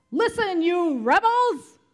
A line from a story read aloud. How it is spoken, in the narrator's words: He shouted